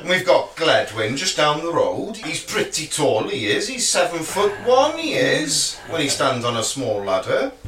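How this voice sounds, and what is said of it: Put-on Welsh accent. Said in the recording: “My best Welsh accent. Do apologise, Welsh people.”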